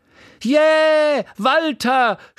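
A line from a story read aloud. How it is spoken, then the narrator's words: Woman shouting from audience. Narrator (German): schrie eine Frau im Publikum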